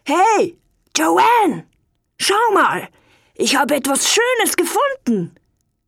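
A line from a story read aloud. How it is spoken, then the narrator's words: Calling out. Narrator (German): Als er ganz oben war, rief er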